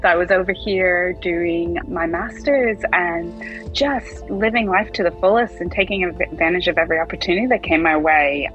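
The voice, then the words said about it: American accent. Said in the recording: “As you can tell from my accent, I'm from the US.”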